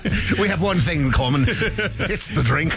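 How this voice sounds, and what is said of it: Put-on Scottish accent. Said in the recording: “Proud of you for doing the Scottish accent there.”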